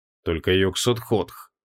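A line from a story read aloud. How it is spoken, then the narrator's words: Muttering mage. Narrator (Russian): пробормотал маг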